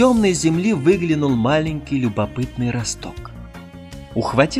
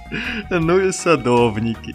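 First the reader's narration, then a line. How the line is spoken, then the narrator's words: Laughing sun. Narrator (Russian): Засмеялась солнышко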